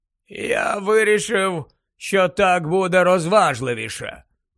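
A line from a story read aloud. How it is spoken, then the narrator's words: Goblin, dull muffled voice. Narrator (Ukrainian): пояснив гоблін з глухим голосом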